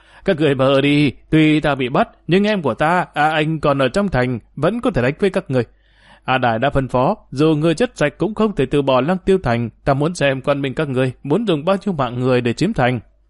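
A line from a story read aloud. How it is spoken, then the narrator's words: Loud laughter. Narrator (Vietnamese): A Áp ngửa mặt lên trời cười to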